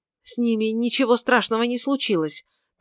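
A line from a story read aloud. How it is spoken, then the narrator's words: Hurried. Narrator (Russian): торопливо сказал Свенсен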